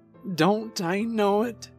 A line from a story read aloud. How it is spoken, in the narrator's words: whimpered, looking shamefully